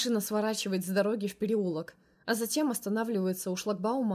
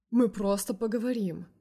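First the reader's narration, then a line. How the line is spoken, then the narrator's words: Soothing tone. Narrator (Russian): успокаивающим тоном проговаривает Саша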